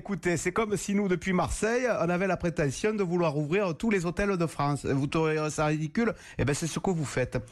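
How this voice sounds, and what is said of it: Put-on southern French accent. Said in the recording (French): “l'imitation était de qualité ... l'accent du Sud, je sais bien le prendre”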